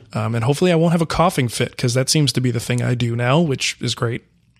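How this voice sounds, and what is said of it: Voice sounds a little off. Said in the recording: “I've lost my voice for like 3 days, and I'm just now kind of getting back on the mend here. So if my voice sounds a little bit off”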